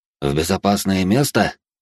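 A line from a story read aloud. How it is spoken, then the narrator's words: Scoffing. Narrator (Russian): хмыкнул я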